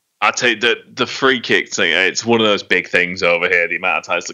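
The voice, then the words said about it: Non-American accent. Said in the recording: “I can tell from the accent that he doesn't have the excuse of being American”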